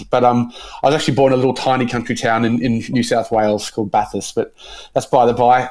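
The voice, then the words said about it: Australian accent with English tinge. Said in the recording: “I think I've probably got more of an Australian accent, although a lot of people sometimes say ... I sound English”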